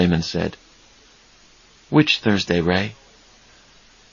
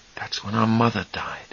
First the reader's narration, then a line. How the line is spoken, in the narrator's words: Charlie breathed softly